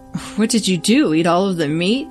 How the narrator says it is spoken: laughed

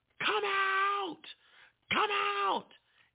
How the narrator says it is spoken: I just start yelling

